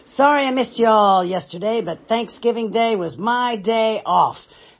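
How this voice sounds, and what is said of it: Hoarse voice from a cold. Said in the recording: “as you can tell by my voice, I didn't have much of a voice yesterday, simply because, yep, I caught a cold”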